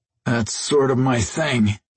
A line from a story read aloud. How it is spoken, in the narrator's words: Jason groaned